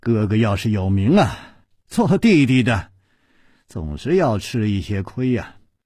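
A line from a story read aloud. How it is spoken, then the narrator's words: Sighing after silence. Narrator (Chinese): 楚留香沉默了一会儿，才叹气了一声说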